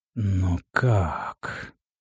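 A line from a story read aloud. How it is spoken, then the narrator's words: Trembling whisper of great ruler. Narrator (Russian): прошептали трясущиеся губы великого повелителя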